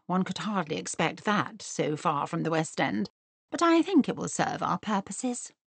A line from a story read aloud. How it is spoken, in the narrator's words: murmured Miss Bingley